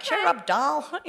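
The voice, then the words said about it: Old-fashioned male catcalling voice. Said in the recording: “that's my impression of the olden days”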